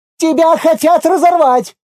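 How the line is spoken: Crowd screaming together. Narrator (Russian): завопила миром

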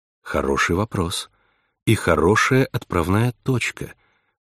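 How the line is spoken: Soft, supportive. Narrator (Russian): мягко поддержала она собеседницу

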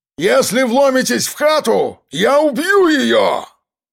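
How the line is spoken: Shouted. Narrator (Russian): Прокричал Жорич

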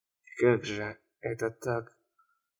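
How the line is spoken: Muttering. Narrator (Russian): Продолжая бормотать, он

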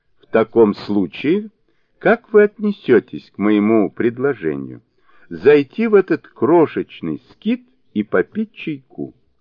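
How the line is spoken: Laughing. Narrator (Russian): Фу Юньсоу засмеялся и сказал

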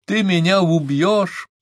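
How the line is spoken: Shout. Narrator (Russian): закричал он

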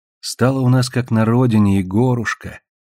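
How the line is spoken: Affectionate. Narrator (Russian): ласково говорит Наталья

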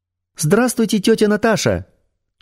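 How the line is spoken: Thin childish voice. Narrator (Russian): тонким детским голосом сказала Светлана

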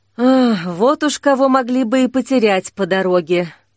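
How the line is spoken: Sighing. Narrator (Russian): вздохнул огонь

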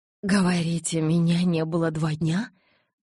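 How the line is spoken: Shocked breathless exclamation. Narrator (Russian): потрясенно выдохнула я

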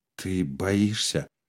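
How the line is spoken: Quiet question. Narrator (Russian): спросила Фрида тихо

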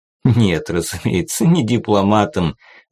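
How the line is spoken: Laughing. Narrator (Russian): засмеялся министр

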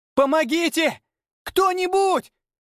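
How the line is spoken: Girl's hysterical scream. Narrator (Russian): Истерично закричала девушка

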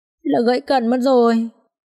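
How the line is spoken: Regretful tone. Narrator (Vietnamese): Vượng nói bằng một giọng tiếc rẻ

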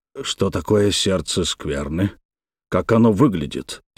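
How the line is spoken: Quiet question. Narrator (Russian): тихо спросил Витязь

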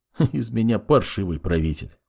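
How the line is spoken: Sad wry chuckle. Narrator (Russian): грустно усмехнулся маг

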